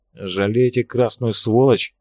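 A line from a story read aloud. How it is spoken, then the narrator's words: Mutter through teeth. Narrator (Russian): процедил Арцилов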